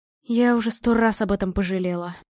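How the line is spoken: Sighed. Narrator (Russian): вздохнула Марина

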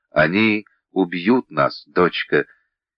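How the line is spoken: Whisper. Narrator (Russian): Вениамин прошептал

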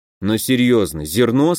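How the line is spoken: Plain. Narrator (Russian): спросил я

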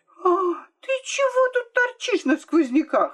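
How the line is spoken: Shouted. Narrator (Russian): закричала она на Марийку

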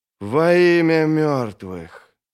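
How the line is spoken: Soft, thoughtful. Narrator (Russian): Это прозвучало мягко, задумчиво

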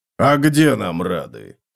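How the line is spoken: Wry snort. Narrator (Russian): хмыкнул Готрек

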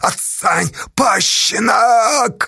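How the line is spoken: Shouting. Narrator (Russian): орал Ефимыч

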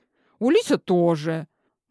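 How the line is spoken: Offended. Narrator (Russian): закончила обиженно

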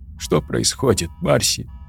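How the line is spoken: Sobbed. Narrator (Russian): всхлипнула Тори

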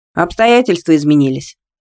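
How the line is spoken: Knowing snort. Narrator (Russian): догадливо хмыкнул Вадим

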